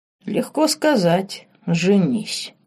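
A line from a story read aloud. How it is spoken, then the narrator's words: Said quietly. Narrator (Russian): тихо произнес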